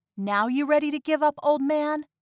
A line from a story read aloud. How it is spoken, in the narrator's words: I shouted